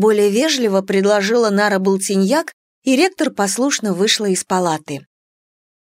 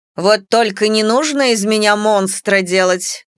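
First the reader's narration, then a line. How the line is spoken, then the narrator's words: Displeased grumbling. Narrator (Russian): недовольно проворчала Ишара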